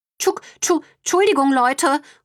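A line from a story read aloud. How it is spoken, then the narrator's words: Calling after. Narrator (German): ruft Brownie ihnen hinterher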